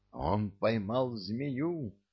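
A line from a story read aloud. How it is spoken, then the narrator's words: Exclamation. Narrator (Russian): воскликнул я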